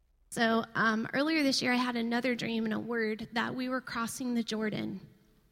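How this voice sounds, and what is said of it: Weak, monotone voice. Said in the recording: “my voice is weak ... talk monotone”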